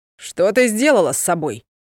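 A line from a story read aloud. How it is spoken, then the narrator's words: Booming voice. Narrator (Russian): прогремел его голос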